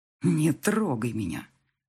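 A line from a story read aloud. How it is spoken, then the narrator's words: Male growl. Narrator (Russian): рыкнул он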